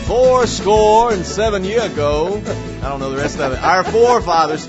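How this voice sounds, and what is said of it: Abraham Lincoln impression accent. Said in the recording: “it was an interesting kind of accent you put. ... That's what I think Abraham Lincoln sounded like.”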